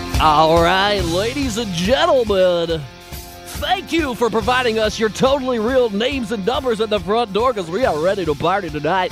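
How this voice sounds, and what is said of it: Strip club DJ announcer voice. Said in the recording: “strip club DJ voice”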